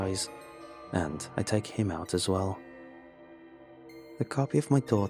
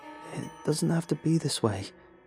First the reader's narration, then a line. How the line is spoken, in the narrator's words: she says, her voice wavering